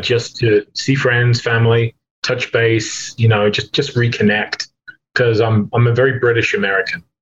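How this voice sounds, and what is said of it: English accent. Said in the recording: “you're looking to get back to England, because you're a dual citizen, if people can't tell by the accent.”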